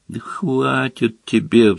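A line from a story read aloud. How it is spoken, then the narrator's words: Pleading. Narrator (Russian): взмолился Рон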